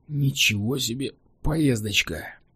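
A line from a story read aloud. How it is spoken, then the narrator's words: Grumbling. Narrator (Russian): проворчал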